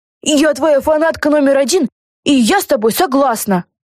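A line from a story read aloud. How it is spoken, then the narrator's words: Shout. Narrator (Russian): закричала Люси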